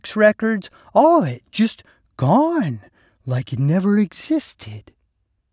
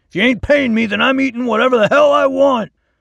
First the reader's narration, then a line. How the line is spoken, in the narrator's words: Darren shouted